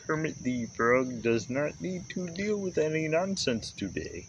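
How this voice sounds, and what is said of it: Kermit the Frog impression. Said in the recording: “Fucking Kermit the Frog over here. ... That was actually pretty good. ... Wasn't quite Frank Oz, but it's pretty good.”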